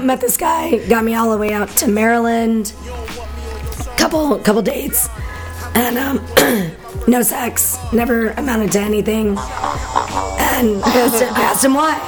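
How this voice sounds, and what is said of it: Hoarse, strained, fading voice. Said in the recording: “I'm losing my voice. ... So bad.”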